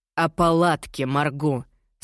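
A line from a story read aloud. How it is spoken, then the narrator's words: Through gritted teeth. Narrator (Russian): сквозь зубы цедит он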